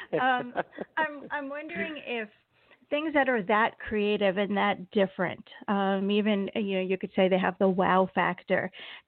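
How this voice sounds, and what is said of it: Strained, fading hoarse voice. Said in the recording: “I'm losing my voice today”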